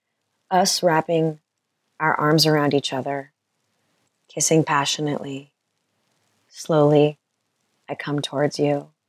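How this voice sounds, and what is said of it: Sultry, seductive reading voice. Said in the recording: “I'm going to read this in my sultriest voice.”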